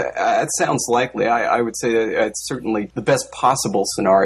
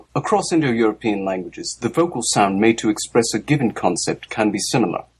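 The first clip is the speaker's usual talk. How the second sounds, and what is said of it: Put-on British accent. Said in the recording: “If you read this with a British accent, it actually kind of sounds smart. ... Sounds better, huh?”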